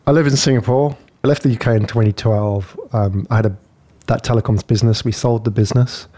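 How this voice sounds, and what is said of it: UK accent. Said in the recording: “everybody that's listening can hear you've got a UK accent”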